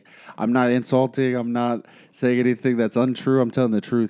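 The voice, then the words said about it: Imitates another person's accent. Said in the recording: “whatever his freaking accent is”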